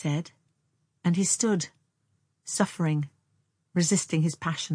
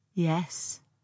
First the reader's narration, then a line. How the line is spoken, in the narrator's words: she replied, in a dead voice